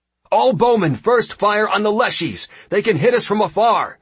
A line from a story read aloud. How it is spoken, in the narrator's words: I shouted out